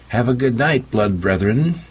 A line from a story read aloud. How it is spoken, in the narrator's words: She called out